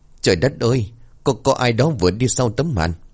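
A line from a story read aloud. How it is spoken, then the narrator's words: Trembling stammer. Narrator (Vietnamese): Bà Năm bắn hàng rong tay run rẩy lắp bắp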